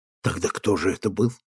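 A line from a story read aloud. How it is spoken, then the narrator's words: Whisper. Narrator (Russian): Теперь они говорили шепотом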